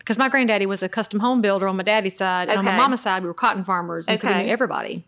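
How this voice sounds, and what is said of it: Southern American accent. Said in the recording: “I want to just listen to your accent all day long. ... I don't know why more Southerners don't use their accents.”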